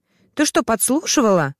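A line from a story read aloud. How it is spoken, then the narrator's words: Angry shout. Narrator (Russian): разозлился Стас и выкрикнул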